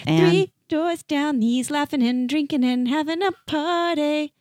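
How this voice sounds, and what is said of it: Singing in rock and roll accent. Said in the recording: “you sang it in a very rock and roll accent.”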